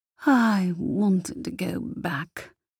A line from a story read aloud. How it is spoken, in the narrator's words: sighed Laria